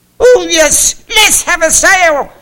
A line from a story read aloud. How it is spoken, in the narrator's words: exclaimed a goldfinch